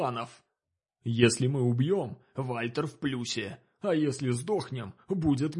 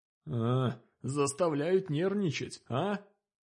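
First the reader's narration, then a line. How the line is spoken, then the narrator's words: Grumbled. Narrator (Russian): буркнул сосед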